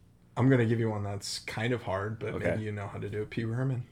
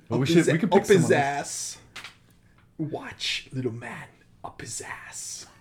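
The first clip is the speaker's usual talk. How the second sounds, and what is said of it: Christopher Walken impression. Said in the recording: “Christopher Walken ... that one from Pulp Fiction”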